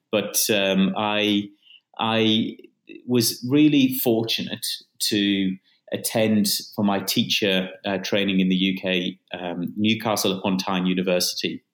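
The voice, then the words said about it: Faint British accent. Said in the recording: “there's a British accent in there somewhere still”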